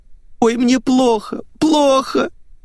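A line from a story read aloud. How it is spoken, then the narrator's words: Fake sobbing. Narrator (Russian): Притворщица зарыдала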